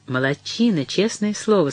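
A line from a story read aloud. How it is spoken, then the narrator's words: Plain, mother. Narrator (Russian): сказала мама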